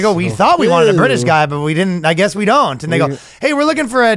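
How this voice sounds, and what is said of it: Usual voice. Nothing is said of it.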